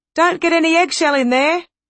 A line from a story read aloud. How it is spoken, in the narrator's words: called out someone from the audience, to much hilarity